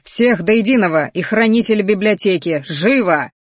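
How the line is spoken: Growling command. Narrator (Russian): Рыкнул он на стражников

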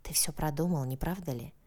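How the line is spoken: Whispered. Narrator (Russian): прошептала она

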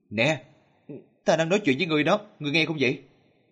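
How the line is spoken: Loud shout. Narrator (Vietnamese): Dương Hữu hét lớn

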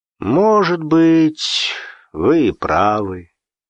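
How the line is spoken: Disappointed drawl. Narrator (Russian): разочарованно протянул Игнатьев

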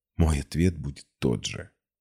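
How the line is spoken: Whisper. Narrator (Russian): прошептала я

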